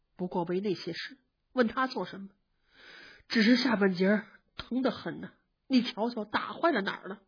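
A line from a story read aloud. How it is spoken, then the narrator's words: Sighing. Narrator (Chinese): 宝玉叹了一口气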